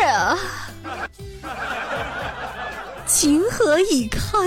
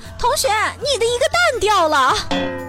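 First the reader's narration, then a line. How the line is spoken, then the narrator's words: Waitress yelling at full voice. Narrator (Chinese): 女服务员扯着嗓子喊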